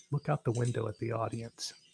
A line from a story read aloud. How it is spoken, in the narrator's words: whispered